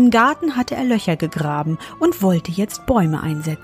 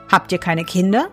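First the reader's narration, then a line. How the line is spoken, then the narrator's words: Plain. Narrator (German): fragte der Fremde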